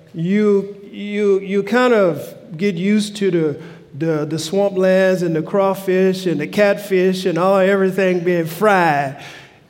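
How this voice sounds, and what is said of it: Southern US accent, Louisiana. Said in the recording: “my accent that I'm not from the Northwest, but I'm from the South, from Louisiana”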